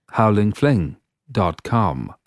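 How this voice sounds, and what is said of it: Authoritative, slightly English accent. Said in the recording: “That was with more authority and a slightly more English accent that time.”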